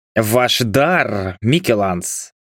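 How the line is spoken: Near growl, imperious. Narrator (Russian): чуть ли не прорычал император

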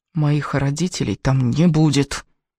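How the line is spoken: Hissing through teeth. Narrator (Russian): прошипела сквозь зубы Элис

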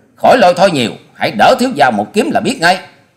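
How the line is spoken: Loud barking threat. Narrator (Vietnamese): Hoa Sĩ Kiệt nạt to

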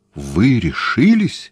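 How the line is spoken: Horrified exclamation. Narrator (Russian): в ужасе воскликнул Гуинетт

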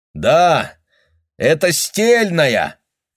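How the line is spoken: Shout. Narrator (Russian): крикнул он Реймонду

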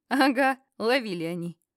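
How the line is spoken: Short laugh. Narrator (Russian): Хохотнул

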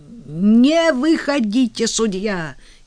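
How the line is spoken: Shout. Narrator (Russian): крикнул Брюси

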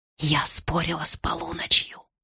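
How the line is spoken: Nervous whisper. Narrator (Russian): с трудом унимая дрожь в ногах, я все-таки не удержалась и сказала шепотом

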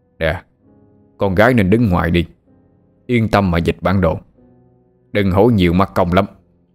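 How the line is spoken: Sudden harsh stern voice. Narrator (Vietnamese): Ba Lành chợt gằn giọng

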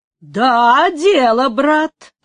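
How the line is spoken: Ringing voice. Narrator (Russian): отвечал звонким голосом тот, которого звали Пабло

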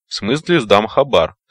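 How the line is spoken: Slightly irritated. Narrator (Russian): слегка раздраженно сказал Метла

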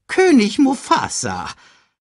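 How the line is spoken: Excited report. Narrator (German): berichtete aufgeregt

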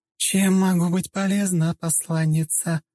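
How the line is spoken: Charming voice. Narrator (Russian): чарующим голосом уточнила

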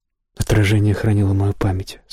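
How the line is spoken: Plain. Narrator (Russian): сказала Фьори

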